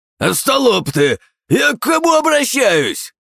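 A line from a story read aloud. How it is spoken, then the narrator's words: Shouting. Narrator (Russian): Кричал ненавистный Чоан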